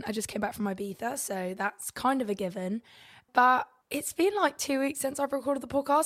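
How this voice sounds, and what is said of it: Croaky, sore-throated voice. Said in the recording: “my voice sounds a bit like, was it called croaky? I've got a bit of a sore throat”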